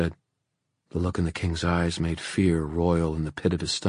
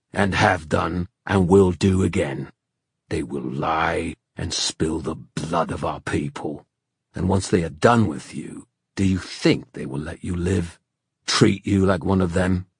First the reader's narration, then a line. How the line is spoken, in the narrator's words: snarled the king